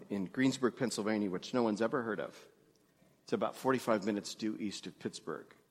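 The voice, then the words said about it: New York Jewish accent. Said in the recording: “I grew up Jewish in New York. What, you can't hear the accent?”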